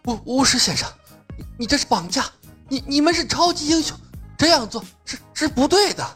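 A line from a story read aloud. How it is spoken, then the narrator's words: Frightened trembling voice. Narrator (Chinese): 克里斯汗如雨下，颤声道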